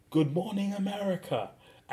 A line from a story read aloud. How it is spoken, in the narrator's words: yells out